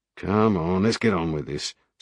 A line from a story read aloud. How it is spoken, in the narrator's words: Sparks muttered, anxious to get away from the audience